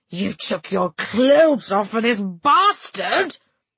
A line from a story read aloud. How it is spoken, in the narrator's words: he snarled